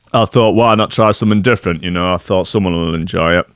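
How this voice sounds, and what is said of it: Strange regional accent. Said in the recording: “That's a very strange accent.”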